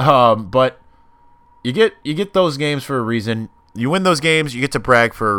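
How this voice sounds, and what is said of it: Usual voice. Nothing is said of it.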